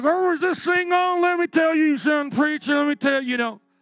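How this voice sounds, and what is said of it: Put-on Southern accent, dumb voice. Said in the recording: “I got to be Southern in my mind, because that's how I always do my dumb person”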